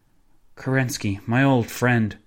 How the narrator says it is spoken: the pianist sighed

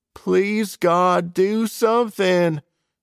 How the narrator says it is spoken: I shout to the heavens

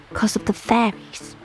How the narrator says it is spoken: Annabeth whispered

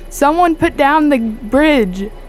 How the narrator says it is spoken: I'm going to yell out

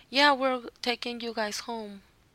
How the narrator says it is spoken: they were start laughing and said

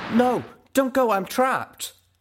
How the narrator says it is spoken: cried out, my hind legs crushed under a fallen wall

